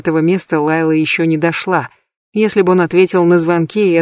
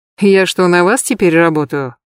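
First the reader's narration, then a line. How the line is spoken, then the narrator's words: Scornful snort. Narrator (Russian): Джинни презрительно хмыкнула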